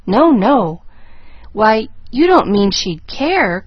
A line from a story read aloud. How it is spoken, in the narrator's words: cried Pollyanna, plainly disturbed